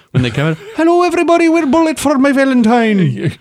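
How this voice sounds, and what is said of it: Put-on Welsh accent, unconvincing. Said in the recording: “Welsh people. Very weird accent. ... No, that's not Welsh.”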